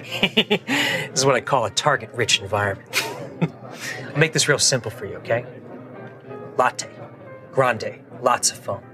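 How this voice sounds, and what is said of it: Tom Cruise impression. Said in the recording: “my entire impression ... Cruise”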